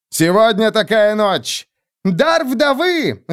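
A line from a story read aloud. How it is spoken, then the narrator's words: Cheerful yell. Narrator (Russian): весело завопила Хега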